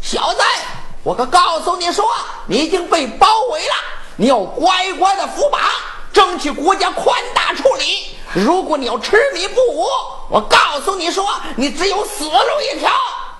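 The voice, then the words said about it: Loud shouting. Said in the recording (Chinese): “别喊了，你是照的怪响”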